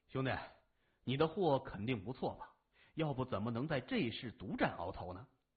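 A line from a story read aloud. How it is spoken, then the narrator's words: Sighing. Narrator (Chinese): 说着叹了口气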